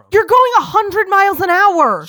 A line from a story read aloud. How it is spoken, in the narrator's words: She yelled at me